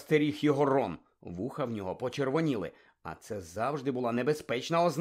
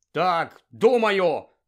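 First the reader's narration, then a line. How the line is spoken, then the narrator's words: Angry statement. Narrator (Ukrainian): сердито сказав Рон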